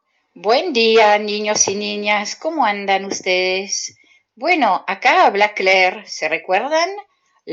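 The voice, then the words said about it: Spanish with a French accent. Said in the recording (Spanish): “La profesora de francés que tiene su acento bien particular ... yo vengo de Bélgica”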